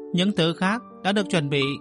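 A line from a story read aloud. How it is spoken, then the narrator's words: Loud laughter. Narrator (Vietnamese): Mộ Dung Thừa cười lớn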